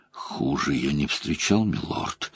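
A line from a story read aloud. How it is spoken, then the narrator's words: Weak voice. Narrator (Russian): слабым голосом произнес Хурин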